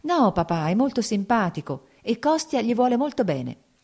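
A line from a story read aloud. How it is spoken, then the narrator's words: Smiling, pleading. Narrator (Italian): disse sorridendo Kitty, come a supplicarlo di qualcosa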